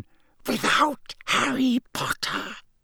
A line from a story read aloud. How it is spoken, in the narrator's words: breathed the second voice softly